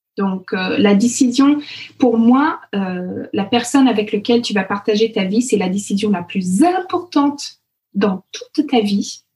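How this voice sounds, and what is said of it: Canadian French accent. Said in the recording (French): “mon accent, etc. Parce que j'ai ce positionnement de Canadienne”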